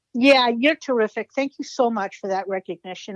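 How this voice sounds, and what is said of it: Boston accent. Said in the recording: “you've got that Boston accent”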